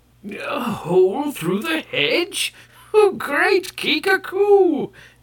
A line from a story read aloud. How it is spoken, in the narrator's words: cried the gray-bearded Kai